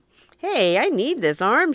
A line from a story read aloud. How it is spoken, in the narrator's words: she said